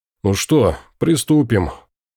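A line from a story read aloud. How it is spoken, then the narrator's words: Sighing. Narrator (Russian): Рим вздохнув, сказал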